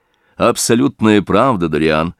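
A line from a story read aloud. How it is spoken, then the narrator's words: Exclaiming. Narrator (Russian): воскликнул Холлорд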